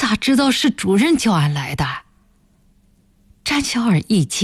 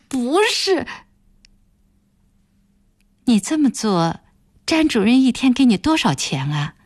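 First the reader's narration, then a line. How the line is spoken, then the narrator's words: Calm question. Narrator (Chinese): 暖暖声音平静地问道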